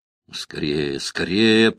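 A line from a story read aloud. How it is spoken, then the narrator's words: Mutter. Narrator (Russian): пробормотал Рузвельт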